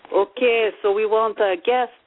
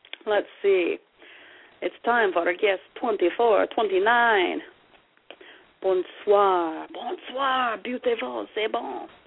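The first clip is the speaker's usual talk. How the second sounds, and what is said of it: Put-on French-Canadian accent. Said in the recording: “Now I'm flipped into a French-Canadian accent.”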